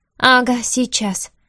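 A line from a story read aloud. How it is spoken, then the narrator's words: Snorted. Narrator (Russian): фыркнула она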